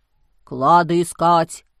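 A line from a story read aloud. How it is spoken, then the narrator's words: Deep voice from darkness. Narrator (Russian): пробасил кто-то из темноты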